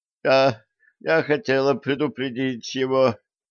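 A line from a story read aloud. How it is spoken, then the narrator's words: Moan. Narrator (Russian): простонала Лорелли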